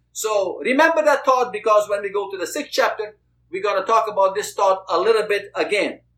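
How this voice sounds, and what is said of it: Noticeable non-native accent. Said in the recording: “forgive my accent, because sometimes it sounds maybe like the rain fell”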